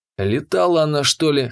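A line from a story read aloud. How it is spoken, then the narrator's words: Wry snort. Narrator (Russian): хмыкнул я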